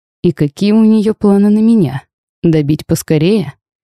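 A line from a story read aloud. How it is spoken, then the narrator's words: Nervous laugh. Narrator (Russian): нервно хохотнул я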